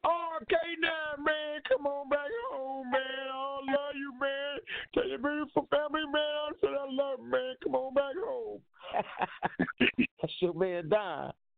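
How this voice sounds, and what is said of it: Impression of Don. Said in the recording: “my Don impersonation”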